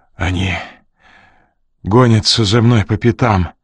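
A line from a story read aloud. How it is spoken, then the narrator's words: Hoarse, forced out. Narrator (Russian): хрипло выдавил Ренли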